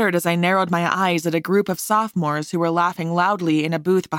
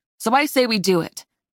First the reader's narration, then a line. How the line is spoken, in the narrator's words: I said firmly